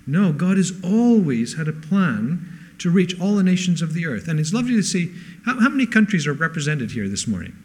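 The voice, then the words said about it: Unusual mixed international accent. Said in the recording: “I have a strange accent because I was born in Spain. Went to international school.”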